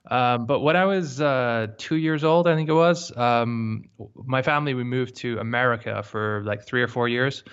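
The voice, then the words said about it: Mixed, hard-to-place accent. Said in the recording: “my accent's really kind of a bit messed up, um, and no one seems to be able to figure out where I'm from”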